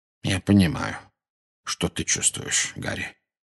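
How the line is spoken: Very quiet. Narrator (Russian): очень тихо произнес Дамблдор

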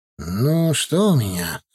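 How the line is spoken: Thoughtful. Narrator (Russian): задумчиво произнес он

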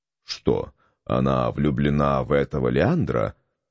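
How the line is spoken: Muttered. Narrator (Russian): пробормотал он

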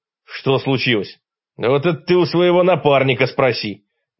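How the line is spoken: Angry snap. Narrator (Russian): Зло бросил мне Фома Еремеев

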